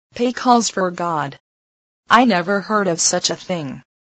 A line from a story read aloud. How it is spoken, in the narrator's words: she exclaimed